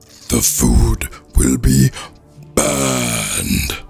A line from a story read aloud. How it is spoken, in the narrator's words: roared Fire